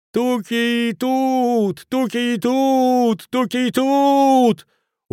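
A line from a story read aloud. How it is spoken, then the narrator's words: Stubborn yelling. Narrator (Russian): Упрямо орал он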